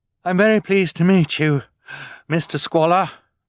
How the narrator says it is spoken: Violet said, still panting

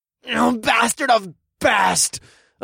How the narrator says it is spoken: cultist snarled from behind me

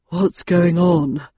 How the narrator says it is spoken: asked Landon, panting

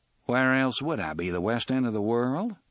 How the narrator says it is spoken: The drawling voice now sounded mildly amused

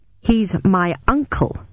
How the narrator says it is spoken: I said angrily

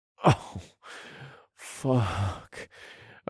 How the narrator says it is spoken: groaned

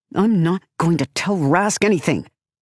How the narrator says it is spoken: snaps

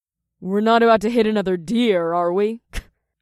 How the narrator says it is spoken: Naomi chuckled

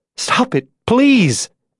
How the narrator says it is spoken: Abigail begged

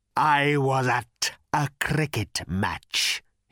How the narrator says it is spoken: he rasped

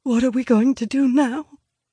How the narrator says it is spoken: whimpers quietly by my side

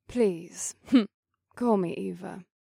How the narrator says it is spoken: the woman said with a soft laugh

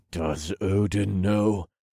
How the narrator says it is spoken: asked through gritted teeth

